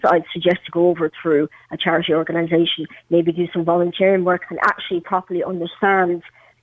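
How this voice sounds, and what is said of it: Irish Meath accent. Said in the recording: “she's a good old Meath accent, which you, which you have”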